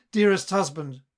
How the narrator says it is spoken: cried

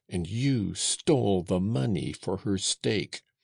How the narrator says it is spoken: cried Joseph

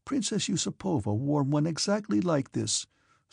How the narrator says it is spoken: said Berg, with a happy and kindly smile

